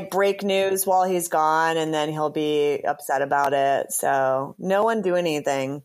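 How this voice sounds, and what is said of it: Usual voice. Nothing is said of it.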